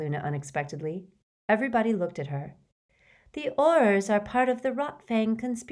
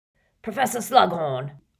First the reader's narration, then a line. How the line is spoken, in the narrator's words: wheezed Filch, his jowls a-quiver and the maniacal light of mischief detection in his bulging eyes